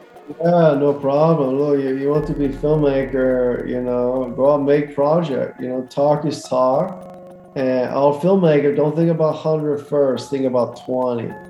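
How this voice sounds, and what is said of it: Impression of Tommy Wiseau. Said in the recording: “great impersonation of Tommy”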